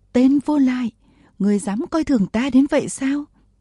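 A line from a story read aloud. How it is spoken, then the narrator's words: Screaming furiously. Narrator (Vietnamese): Vừa thét, Bùi Thị Xuân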